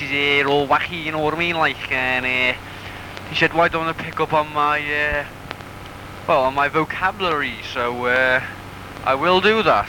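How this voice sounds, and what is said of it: Scouse Liverpool accent. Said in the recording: “my Scousy accent”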